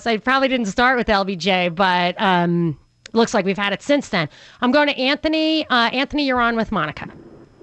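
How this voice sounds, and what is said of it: Brooklyn New York accent. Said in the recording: “he was Sheepshead Bay. Can you tell? I'm trying to get over my accent. No, you can tell... Your accent's great.”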